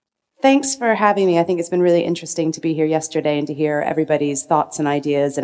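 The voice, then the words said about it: Subdued, sick-sounding voice. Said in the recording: “I've got a bit of a cold ... I'm usually much more excitable when I give presentations. I'll be a bit subdued.”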